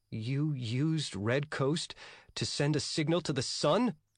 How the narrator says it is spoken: Yang asked anxiously

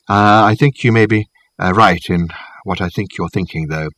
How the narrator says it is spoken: he added quietly

